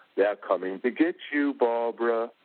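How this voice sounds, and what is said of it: Spooky imitation of another person's voice. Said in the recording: “I try to get spooky with my sister, and I go ... and my Boris Karloff accent.”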